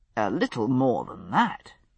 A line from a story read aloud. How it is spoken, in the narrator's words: said dryly